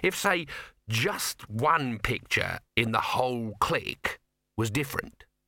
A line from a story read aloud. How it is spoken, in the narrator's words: he said slowly